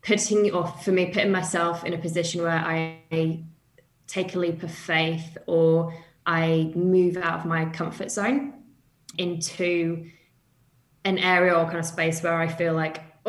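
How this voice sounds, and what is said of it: British accent. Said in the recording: “as you can tell from my accent, I'm from the UK.”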